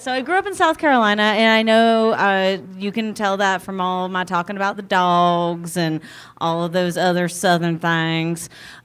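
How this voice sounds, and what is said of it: Southern US accent. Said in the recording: “I know you guys can tell this from my accent, but I'm from South Carolina.”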